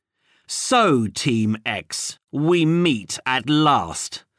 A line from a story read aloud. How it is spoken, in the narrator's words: said Code in a cold, metallic voice